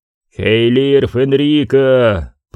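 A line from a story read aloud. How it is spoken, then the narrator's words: Echoing roar. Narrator (Russian): прорычал он, и отзвуки его голоса прокатились над каменными плитами, словно первые всполохи лесного пожара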